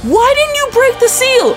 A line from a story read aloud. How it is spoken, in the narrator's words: she screams and goes